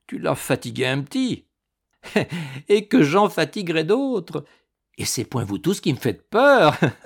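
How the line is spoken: Laughing boldly. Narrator (French): déclara-t-elle en riant de toutes ses dents éclatantes

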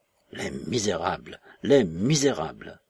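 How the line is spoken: Moaning. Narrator (French): gémissait-il

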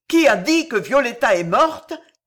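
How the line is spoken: Heartbroken sobbing cry. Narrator (French): cria une voix avec un sanglot déchirant

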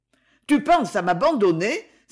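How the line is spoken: Ironic exclamation. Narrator (French): s'écria la baronne avec ironie

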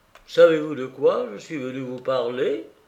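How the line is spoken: Exclaimed. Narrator (French): s'écria Maurice

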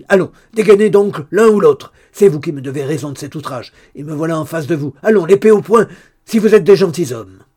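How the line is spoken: Shouting. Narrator (French): criait-il

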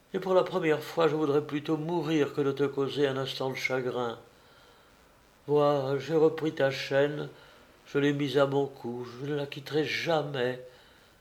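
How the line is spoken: Said sighing. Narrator (French): dit-elle en soupirant

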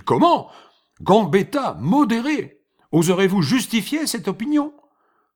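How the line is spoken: Shouted. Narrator (French): cria-t-il

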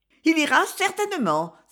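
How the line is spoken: Exclaiming. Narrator (French): s'écria Suzanne

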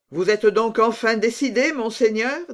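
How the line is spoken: Plain. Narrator (French): dit Rochefort

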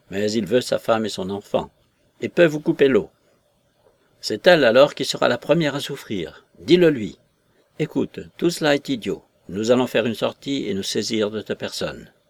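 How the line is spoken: Shouted. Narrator (French): criai-je

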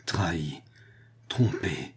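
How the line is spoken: Murmur trembling with anger. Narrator (French): murmura-t-il en tremblant de colère

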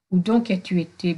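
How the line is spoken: Stammered. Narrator (French): bégaya-t-il

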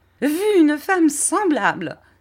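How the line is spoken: Exclaimed. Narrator (French): s'écria Miss Murdstone

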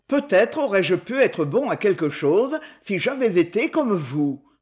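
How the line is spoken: Fierce melancholy. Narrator (French): dit-il d'un ton de sauvage mélancolie

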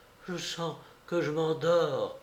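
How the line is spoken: Moaning. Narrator (French): gémissait-elle

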